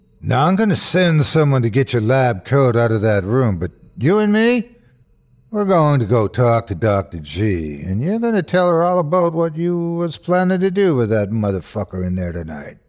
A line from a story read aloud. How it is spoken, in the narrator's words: he boomed